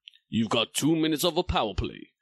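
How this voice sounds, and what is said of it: Sports video game announcer voice. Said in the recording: “my voice went very EA Sports there. ... Do your best impression. ... EA Sports.”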